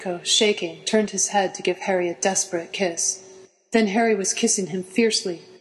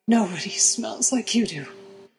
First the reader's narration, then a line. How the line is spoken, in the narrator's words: muttering